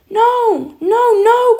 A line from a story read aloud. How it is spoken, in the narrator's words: cried Peter again